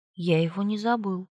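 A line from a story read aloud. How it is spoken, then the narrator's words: Calm reply. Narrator (Russian): спокойно ответил Эдвард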